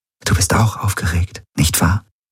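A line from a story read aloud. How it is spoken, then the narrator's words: Whispering. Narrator (German): flüsterte sie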